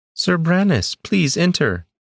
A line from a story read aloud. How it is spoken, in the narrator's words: called out